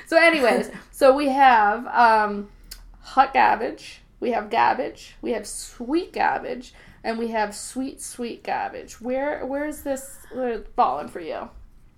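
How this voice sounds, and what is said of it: Boston accent. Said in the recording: “I'm from Boston, so I'm going to be dropping some eyes ... somebody thought my accent was grating”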